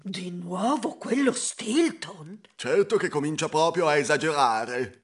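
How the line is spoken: Crowd murmuring. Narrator (Italian): Tutti mormoravano

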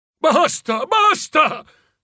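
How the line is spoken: Shouting. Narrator (Italian): gridò

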